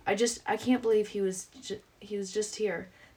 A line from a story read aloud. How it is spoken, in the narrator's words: the lady cries in despair